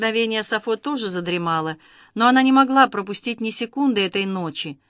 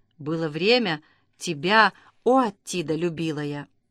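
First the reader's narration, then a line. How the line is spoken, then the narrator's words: Whispered. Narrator (Russian): Сафо прошептав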